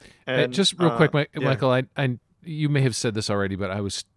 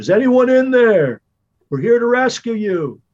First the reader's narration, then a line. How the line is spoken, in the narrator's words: going to yell in